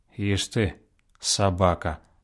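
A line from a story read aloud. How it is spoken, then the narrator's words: Muttering. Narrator (Russian): пробормотал Савка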